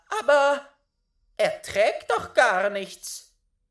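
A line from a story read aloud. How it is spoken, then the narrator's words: Calling out. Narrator (German): rief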